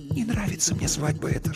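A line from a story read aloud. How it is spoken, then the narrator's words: Whispered. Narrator (Russian): шепнула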